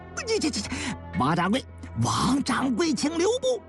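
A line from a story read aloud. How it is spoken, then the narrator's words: Hurried calling out. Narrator (Chinese): 郭德义慌忙叫道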